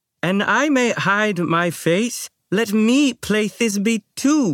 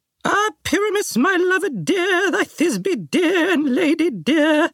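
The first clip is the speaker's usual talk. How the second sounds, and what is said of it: Tiny high-pitched woman's voice. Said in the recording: “you may speak as small as you will ... I'll speak in a monstrous little voice”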